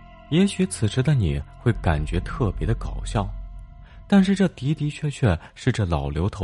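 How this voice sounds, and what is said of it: Usual voice. Nothing is said of it.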